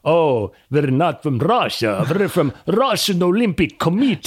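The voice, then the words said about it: Put-on Russian accent. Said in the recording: “how bad is my Russian impersonation? ... No, it was great.”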